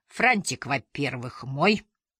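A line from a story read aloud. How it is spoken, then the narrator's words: Grumpy bass voice. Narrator (Russian): сказала она сварливым басом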